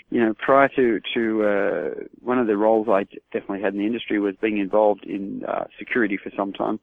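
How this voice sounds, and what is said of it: American regional accent. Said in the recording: “As you can probably tell from my accent, it does come from a little bit south of New York.”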